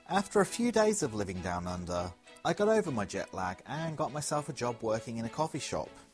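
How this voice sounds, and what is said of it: Fairly strong English accent. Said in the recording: “I have a fairly strong English accent”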